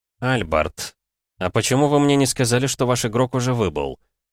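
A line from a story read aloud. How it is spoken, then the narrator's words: Dry tone. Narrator (Russian): сухим тоном спросил Ратмир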